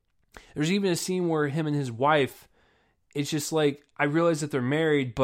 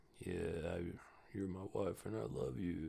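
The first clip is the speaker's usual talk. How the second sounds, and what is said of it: Chill, suave, flat impression. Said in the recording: “like kind of chill, like kind of suave ... that was a terrible impression”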